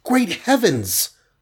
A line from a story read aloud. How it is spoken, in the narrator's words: cried the Wasp